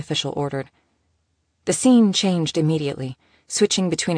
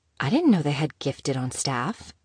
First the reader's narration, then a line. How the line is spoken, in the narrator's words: Eve noted quietly, her usually excited tone subdued